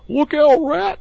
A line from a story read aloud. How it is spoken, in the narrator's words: cried the mole suddenly